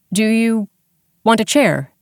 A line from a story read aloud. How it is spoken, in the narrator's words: Dex asked